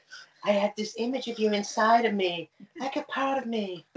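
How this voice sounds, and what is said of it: Imitates another person's voice. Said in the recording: “if you excuse my Jennifer Tilly impression ... Was that not a good impression? ... It was only a good impression. Good impression, Jennifer Tilly.”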